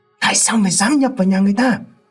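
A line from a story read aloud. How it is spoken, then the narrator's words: Hissing old man. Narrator (Vietnamese): Cụ Sáu Hiền rít lên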